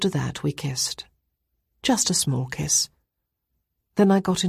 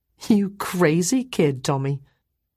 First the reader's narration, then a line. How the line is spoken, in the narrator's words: I laughed too and said